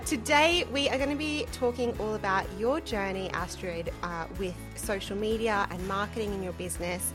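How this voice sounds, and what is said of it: Speaker's own non-native accent. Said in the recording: “I think that my accent might butcher it a little bit”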